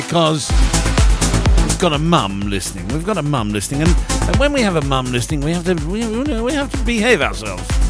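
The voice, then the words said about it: Put-on posh voice. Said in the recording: “put on my posh voice”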